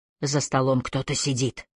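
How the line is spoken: Choked whisper. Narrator (Russian): сдавленно прошептал Маккалли

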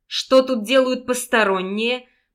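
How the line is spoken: Eager hunter's growl. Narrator (Russian): прорычал следователь с лихорадочным блеском охотника в глазах

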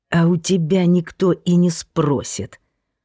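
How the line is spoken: Hissed. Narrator (Russian): прошипел тесть

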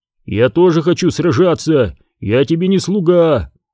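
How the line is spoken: Barked shout. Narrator (Russian): гаркнул Тасиро

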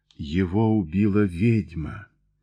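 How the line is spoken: Quiet. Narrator (Russian): тихо произнес Джой

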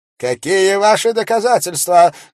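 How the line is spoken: Preacher's shout. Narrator (Russian): крикнул проповедник

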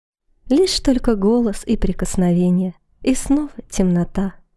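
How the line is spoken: Sad, tender voice. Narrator (Russian): грустным, нежным голосом процитировала Лия

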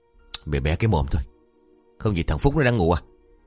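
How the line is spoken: Harsh low voice. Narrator (Vietnamese): gằn giọng

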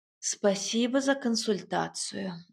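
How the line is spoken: Sighing. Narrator (Russian): вздохнула я

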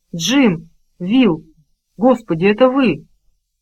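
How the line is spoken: Frightened then surprised exclamation. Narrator (Russian): Сперва она испугалась, потом удивленно воскликнула

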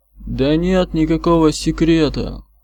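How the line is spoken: Tired repetition, watchmaker. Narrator (Russian): устало повторил часовщик

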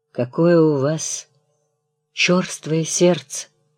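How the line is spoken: Calm composed tone. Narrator (Russian): произнесла та невозмутимым тоном

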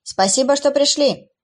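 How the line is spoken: Welcoming shout. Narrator (Russian): крикнул Джейсон, приветствуя гостей

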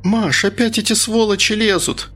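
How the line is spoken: Woman screaming. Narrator (Russian): завопила толстушка с соседней кассы

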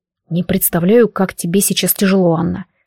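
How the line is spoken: Plain. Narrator (Russian): сказал он

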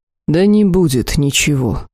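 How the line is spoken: Weary, cutting off. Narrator (Russian): устало оборвал их господин Данес

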